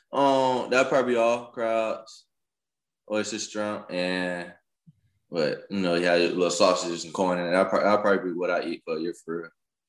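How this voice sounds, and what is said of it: Slight Alabama Southern accent. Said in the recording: “I got a little Alabama accent”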